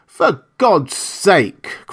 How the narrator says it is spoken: cried Montgomery

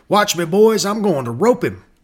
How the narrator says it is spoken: one young ranger called Stoke Holmes cried out

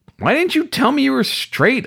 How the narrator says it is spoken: finally barked

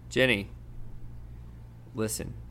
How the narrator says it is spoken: he said very quietly

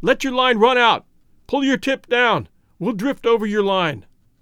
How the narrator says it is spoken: yelled sharply

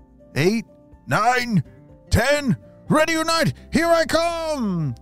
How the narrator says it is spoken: shouted Dante

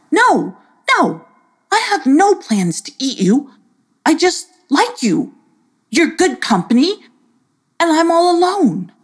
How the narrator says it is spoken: called out

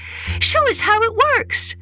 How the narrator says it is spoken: his children begged

